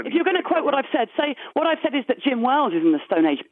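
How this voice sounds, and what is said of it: English accent. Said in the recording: “certainly with an English accent ... yes, I have an English accent.”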